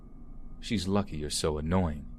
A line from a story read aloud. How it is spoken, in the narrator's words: he muttered